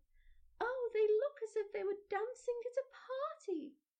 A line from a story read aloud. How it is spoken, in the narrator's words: cried